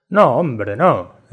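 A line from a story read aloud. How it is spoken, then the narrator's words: Shop clerk exclaiming. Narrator (Spanish): exclamó el dependiente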